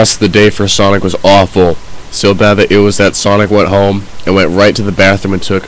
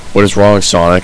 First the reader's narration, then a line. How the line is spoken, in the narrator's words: asked Sonic's mom